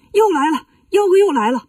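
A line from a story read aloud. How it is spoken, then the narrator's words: Urgent shout. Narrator (Chinese): 喊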